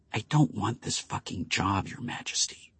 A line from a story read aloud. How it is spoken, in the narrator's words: she said quietly in Greyland's ear